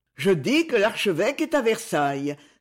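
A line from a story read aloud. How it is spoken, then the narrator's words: Impatient exclamation. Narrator (French): s'écria Amos Green d'un ton impatienté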